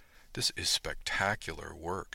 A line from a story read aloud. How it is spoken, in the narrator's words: she said softly